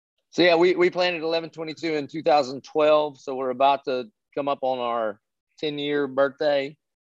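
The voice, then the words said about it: Southern redneck accent. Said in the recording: “you're a redneck like I am, and I can understand your accent real well”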